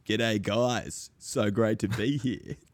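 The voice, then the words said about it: Impersonated character voice. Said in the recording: “Great impersonation. You sound just like it.”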